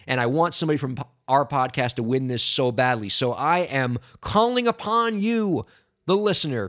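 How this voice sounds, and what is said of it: Hoarse, strained voice. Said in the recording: “laryngitis is coming back to me here”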